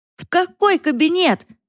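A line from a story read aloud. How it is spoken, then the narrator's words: Yelled. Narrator (Russian): заорала она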